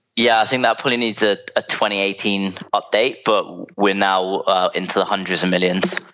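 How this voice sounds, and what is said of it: London English accent. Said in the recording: “From your accent, you're a Londoner.”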